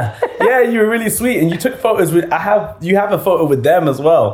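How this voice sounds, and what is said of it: Usual voice. Nothing is said of it.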